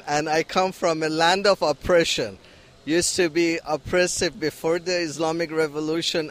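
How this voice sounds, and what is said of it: Iranian-accented English. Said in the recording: “Was that my accent that gave it away? I'm from Iran”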